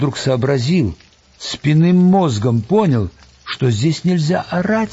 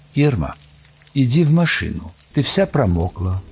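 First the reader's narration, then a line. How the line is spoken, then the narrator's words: Very calm. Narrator (Russian): Он сказал очень спокойно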